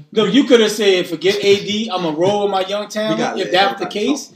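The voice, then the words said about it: Yelling, raised voice. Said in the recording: “Can y'all stop yelling?”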